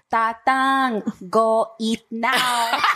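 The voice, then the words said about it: Put-on Filipino immigrant accent. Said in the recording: “speaking in a fob accent”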